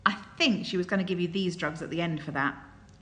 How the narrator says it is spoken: Lin Jing said

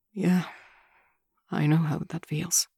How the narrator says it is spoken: he says quietly

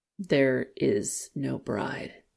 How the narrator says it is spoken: Zheng Fengmin said in a flat voice

